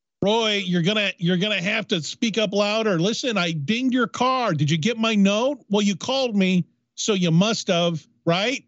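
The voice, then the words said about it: Yelling loudly. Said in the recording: “I'm yelling”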